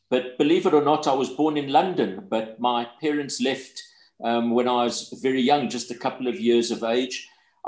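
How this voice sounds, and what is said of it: Broad South African accent. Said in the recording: “you can hear the broad South African accent”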